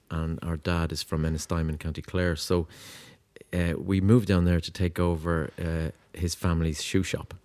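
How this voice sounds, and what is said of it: Irish Dublin accent. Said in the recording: “you're originally from Dublin ... The accent, probably.”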